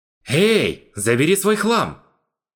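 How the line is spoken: Shout. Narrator (Russian): Крикнул ему Ганс

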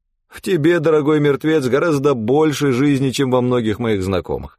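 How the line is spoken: Laughing. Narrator (Russian): рассмеялся Данте

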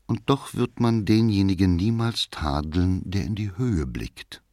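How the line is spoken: Modest, half-voiced, sighing reply. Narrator (German): Nach einer Pause versetzte bescheiden, halblaut und fast mit einem Seufzer

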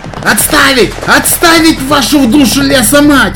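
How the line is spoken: Yelling, first to recover. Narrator (Russian): Орал, первым пришедший в себя

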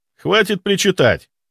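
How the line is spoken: Sharp scolding shout. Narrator (Russian): прикрикнул я на родственника

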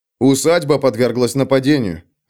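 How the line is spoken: Firm, steady voice. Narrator (Russian): ответил Феликс твердым голосом, который непонятно как смог сохранить в данных обстоятельствах

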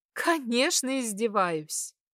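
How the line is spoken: Amused, after laughing. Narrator (Russian): отсмеявшись, кивнула

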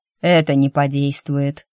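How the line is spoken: Grumbling. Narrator (Russian): проворчал Алир

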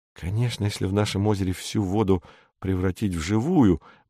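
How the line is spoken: Mumbling. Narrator (Russian): бормочет Саша

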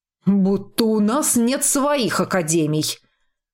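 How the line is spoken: Offended mutter. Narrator (Russian): Обиженно буркнул

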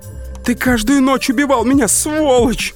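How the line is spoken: Scream from a distance. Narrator (Russian): завопила она с балкона

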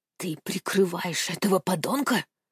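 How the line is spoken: Furious whisper. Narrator (Russian): яростно прошептал он

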